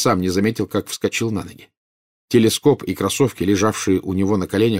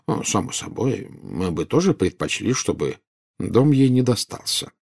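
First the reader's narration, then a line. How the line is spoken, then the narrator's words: Calm. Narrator (Russian): спокойно сказал Дамблдор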